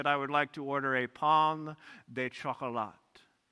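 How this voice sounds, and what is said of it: Put-on French accent. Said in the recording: “in my best French accent”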